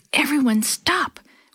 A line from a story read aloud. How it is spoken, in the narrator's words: Willie whispered excitedly